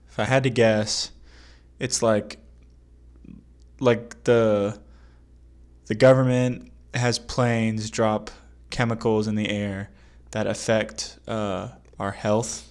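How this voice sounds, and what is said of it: Groggy, just-woke-up voice. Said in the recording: “Like you just crawled out of bed. ... it's my radio voice.”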